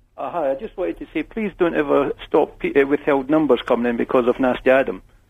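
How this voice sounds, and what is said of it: Scottish accent. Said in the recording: “I've got a Scottish accent”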